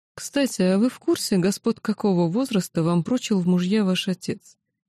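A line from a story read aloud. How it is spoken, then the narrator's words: Pointedly calm inquiry. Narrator (Russian): Демонстративно невозмутимым тоном поинтересовался лорд Аверан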